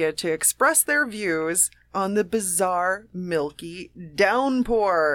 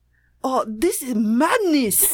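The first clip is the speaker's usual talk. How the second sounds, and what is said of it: Put-on foreign accent. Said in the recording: “ones you can do accents for ... someone from the Far East ... That sounds like Middle Eastern, though ... That is a perfect Tokyo accent”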